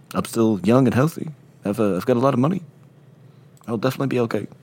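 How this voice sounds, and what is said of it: Bad, inconsistent impression of another person. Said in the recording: “Are you doing a Beatle? Are you, like, doing Woody Allen? ... You're all over the fucking map here ... doing a bad impression. Just admit you did a bad impression.”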